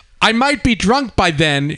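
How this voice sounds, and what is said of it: Put-on English accent. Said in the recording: “I have to say it with an English accent.”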